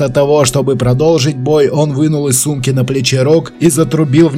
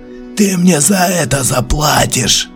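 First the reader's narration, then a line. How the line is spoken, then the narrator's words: Growled. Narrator (Russian): он зарычал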